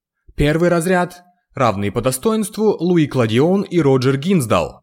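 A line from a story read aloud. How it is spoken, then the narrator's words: Loud proclamation. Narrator (Russian): провозгласил громким голосом директор Джулиан Ардак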